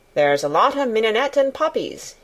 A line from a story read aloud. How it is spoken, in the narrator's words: he said